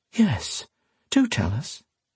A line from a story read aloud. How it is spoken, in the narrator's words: Lady Isabel said in a soft, not unpleasant voice